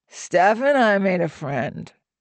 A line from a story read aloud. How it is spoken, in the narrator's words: Otto slurred